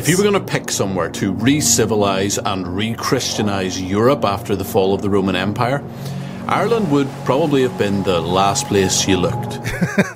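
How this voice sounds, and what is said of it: Irish accent. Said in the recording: “He's from Ireland, so he's got a fantastic accent ... I do like the accent ... The accent is absolutely fantastic.”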